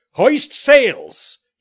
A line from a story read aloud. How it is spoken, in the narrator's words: cried